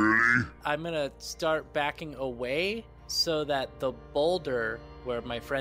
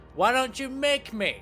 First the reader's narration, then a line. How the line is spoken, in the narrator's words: yell back in giant